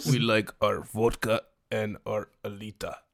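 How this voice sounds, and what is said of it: Poor put-on Russian accent. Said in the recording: “in a Russian accent ... That was the worst Russian accent”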